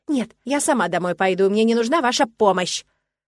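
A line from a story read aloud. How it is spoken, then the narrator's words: Shouted. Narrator (Russian): Выкрикиваю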